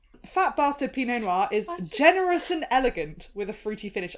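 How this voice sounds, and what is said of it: Well-spoken English accent. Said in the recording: “you doing it in your very well-spoken English accent”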